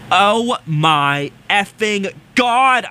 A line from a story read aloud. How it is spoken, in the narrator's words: I screamed